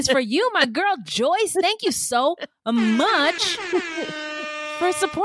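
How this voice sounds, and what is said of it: Usual voice. Nothing is said of it.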